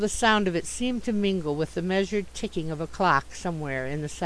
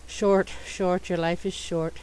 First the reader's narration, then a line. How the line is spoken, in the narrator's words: murmuring